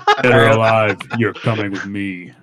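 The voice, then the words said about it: Good impression of RoboCop's voice. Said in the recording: “That was actually a really good impression.”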